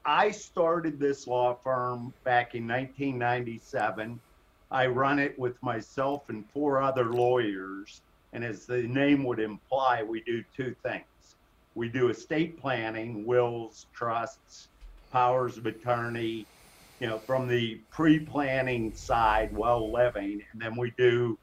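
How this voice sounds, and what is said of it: Heavy Pittsburgh accent. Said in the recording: “this heavy Pittsburgh accent”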